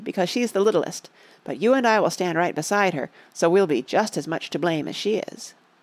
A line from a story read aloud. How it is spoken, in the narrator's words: said Betsy firmly